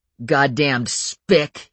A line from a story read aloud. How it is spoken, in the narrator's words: he spat